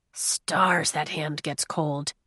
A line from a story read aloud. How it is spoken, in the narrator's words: Kai murmured